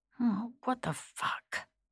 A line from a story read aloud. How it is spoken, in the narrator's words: mumbled